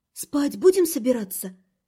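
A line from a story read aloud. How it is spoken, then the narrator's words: Barely audible muffled whisper. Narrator (Russian): Уткнувшись носом в шею мужа, еле слышно прошептала я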